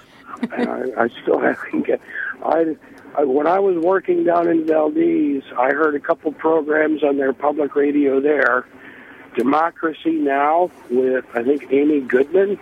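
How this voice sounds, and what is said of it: Hoarse, strained voice. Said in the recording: “apologize for my voice. I yelled myself hoarse”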